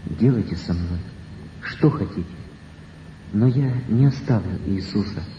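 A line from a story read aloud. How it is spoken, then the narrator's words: Frightened, tearful, barely audible. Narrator (Russian): Бледный, весь дрожа, испуганно, со слезами на глазах, Василий произнес едва слышным голосом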